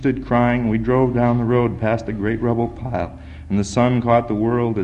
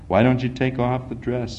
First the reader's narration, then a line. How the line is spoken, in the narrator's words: said